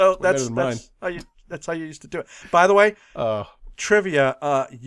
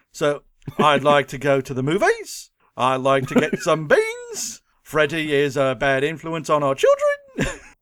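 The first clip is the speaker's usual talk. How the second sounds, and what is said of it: Australian accent, rising question-like lilt. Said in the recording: “if you want to do a good Australian accent, what you got to do is every time you do it, you just, at the end, you just lilt your voice like everything's a question ... It's not bad.”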